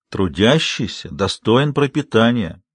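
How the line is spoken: Gentle instructive tone. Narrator (Russian): назидательно, но мягко указал Большой Джим

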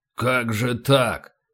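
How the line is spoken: Grumbled. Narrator (Russian): проворчал полубой

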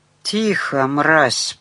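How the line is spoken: Whisper. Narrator (Russian): прошептал Рафалович

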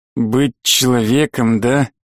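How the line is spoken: Hissing. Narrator (Russian): голос темного мага больше похож на шипение

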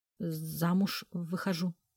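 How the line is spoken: Stammering. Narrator (Russian): сказала, заикаясь

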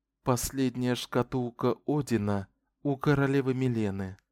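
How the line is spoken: Barely audible speech. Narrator (Russian): Шота говорила еле слышно

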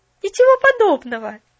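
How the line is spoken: Cheerful objection. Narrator (Russian): весело возразила Поллианна

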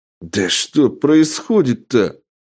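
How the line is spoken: Bewildered exclamation. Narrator (Russian): воскликнул недоумевающий охранник

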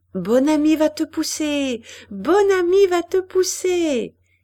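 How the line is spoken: Shouting. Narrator (French): criait Jeanne

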